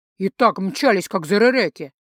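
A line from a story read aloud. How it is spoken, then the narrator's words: Growled. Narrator (Russian): прорычал Гархайт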